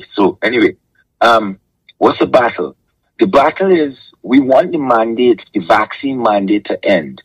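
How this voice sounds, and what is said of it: Hoarse voice. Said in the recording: “excuse my voice; it's still hoarse because I'm talking whole day every day”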